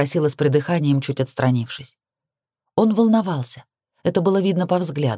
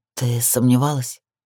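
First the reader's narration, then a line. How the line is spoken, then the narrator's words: Hoarse. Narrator (Russian): уточнил он сипло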